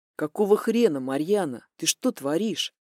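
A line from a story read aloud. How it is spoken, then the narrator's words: Angry hiss. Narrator (Russian): Злобно зашипел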